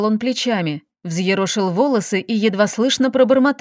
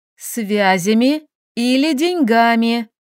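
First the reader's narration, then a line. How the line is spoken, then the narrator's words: Slow, patronizing explanation. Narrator (Russian): Медленно, как маленькому, пояснила я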